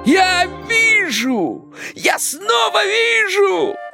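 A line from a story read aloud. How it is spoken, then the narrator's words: Joyful shout. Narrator (Russian): радостно закричал Кощей Бессмертный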